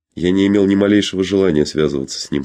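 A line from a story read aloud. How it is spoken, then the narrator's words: Plain. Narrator (Russian): сказал он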